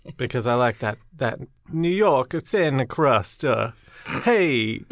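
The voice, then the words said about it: Put-on Brooklyn accent. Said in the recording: “really good Brooklyn impression ... you guys are good at accents”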